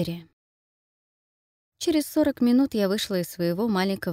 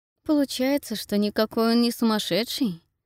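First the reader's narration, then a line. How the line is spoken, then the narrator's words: Muttering under breath. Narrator (Russian): пробурчала себе под нос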